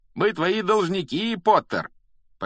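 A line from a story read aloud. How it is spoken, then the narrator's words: Loud shouting crowd. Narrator (Russian): школьники из Слизерина громко выкрикивать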